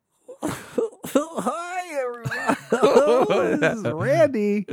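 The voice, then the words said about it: Giggly imitation of another person's voice. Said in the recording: “I'll do my impression of Randy in the intro. ... Sometimes you're a little giggly.”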